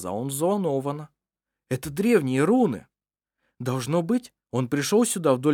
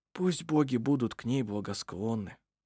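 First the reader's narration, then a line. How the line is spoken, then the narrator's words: Whisper. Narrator (Russian): прошептал Ировар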